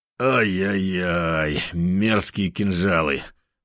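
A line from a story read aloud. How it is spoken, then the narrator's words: Pained moan. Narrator (Russian): простонал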